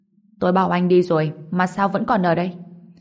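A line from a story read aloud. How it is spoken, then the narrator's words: Cold. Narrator (Vietnamese): Kim Huyền Bạch lạnh lùng nói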